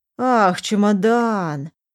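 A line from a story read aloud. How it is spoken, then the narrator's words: Drawn-out speech. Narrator (Russian): протянул Глеб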